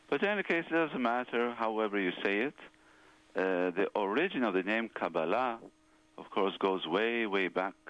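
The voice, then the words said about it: Israeli Hebrew accent. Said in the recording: “I come from Israel, so there's more a Hebrew accent.”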